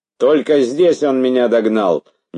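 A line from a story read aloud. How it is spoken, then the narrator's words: Nervous shout. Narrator (Russian): нервно крикнул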